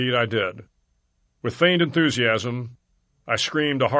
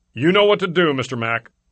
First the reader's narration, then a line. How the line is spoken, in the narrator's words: I heard him yell